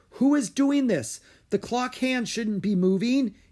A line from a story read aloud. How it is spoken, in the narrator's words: he yelled